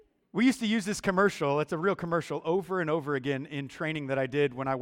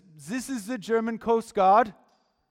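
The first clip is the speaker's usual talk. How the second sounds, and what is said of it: Bad put-on German accent. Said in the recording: “Terrible accent, I know.”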